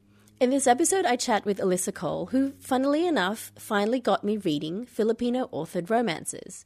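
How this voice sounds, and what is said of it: Congested, strange-sounding cold voice. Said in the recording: “I've got a little bit of a cold, so my voice sounds somewhat strange”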